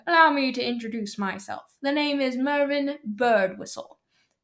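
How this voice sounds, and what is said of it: Put-on old English accent. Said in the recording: “the old English ... talking in an accent”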